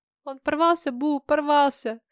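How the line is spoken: Sobbing openly. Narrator (Russian): Полина уже не сдерживала рыданий

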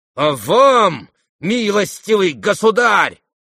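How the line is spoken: Shouting. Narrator (Russian): крикнул он

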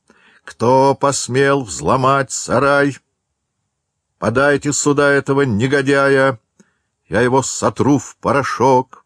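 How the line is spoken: Booming, clipped words. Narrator (Russian): мощным голосом, отчеканивая каждое слово, прогремел

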